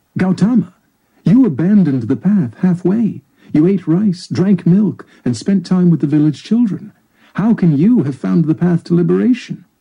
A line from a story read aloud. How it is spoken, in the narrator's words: Kondana blurted out